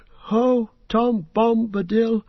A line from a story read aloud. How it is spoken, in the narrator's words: his voice seemed to grow strong